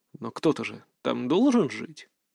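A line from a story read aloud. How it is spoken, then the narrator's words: Quiet. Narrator (Russian): Мои слова прозвучали тихо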